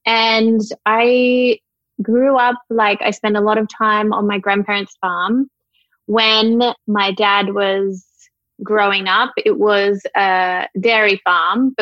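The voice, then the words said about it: Australian accent. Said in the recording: “a little country town in Australia ... Gunnedah. When I tell people here in America, they're like, Canada? I was like, no, Gunnedah. It's my accent.”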